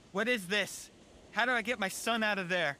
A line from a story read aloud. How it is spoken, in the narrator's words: yelled back